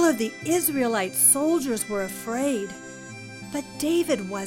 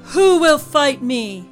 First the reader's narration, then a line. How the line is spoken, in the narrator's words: Goliath's voice boomed